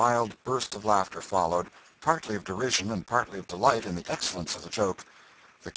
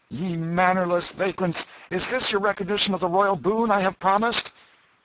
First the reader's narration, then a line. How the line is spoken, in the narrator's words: He said more, with angry voice